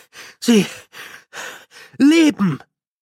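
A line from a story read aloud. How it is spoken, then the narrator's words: Gasped. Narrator (German): keuchte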